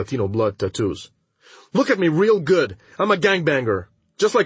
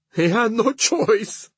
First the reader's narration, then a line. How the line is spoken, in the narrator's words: she cries